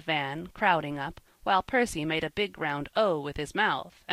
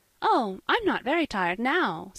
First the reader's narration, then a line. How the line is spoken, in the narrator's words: said Polly, brightly, with a merry little laugh